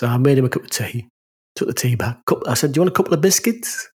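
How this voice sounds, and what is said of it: Northern English accent. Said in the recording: “My accent's not that bad ... because of my northern accent”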